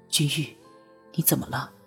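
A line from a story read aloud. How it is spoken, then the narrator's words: Gentle voice. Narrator (Chinese): 拓桑 柔声道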